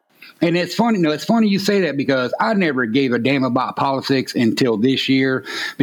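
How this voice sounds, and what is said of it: Southern US accent. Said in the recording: “someone with a Southern accent”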